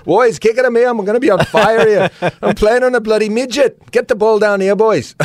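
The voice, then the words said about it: Imitated Irish accent. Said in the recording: “in that Irish accent”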